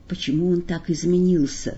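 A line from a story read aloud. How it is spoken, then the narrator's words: Quiet question over whistling wind. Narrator (Russian): спросила тихо Маргарита под свист ветра у Воланда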